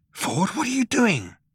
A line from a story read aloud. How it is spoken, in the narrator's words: He asked in an amazed whisper